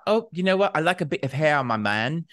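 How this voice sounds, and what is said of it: Poorly done put-on accent. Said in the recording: “My accent work today is terrible”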